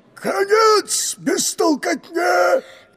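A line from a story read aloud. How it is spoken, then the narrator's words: Ancient drone shouting. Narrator (Russian): древний дрон тогда крикнул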